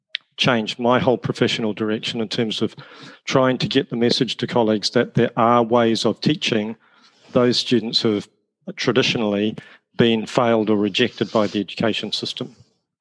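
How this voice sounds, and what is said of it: A distinctive regional accent. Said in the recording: “your accent ... it's beautiful. I just want to listen to you talk all day.”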